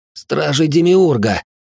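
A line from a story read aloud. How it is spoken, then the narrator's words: Breathless exclamation. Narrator (Russian): выдохнул Тинги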